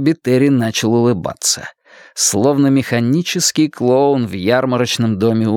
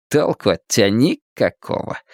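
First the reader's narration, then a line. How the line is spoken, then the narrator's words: Scornful snort. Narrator (Russian): фыркнул Дэйв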